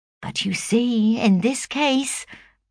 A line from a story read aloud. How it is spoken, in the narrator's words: pleaded Hattersley